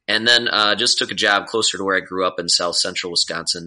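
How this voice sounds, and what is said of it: Nasal Wisconsin accent. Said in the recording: “I'm from Wisconsin too, if you can't tell by my nasally accent.”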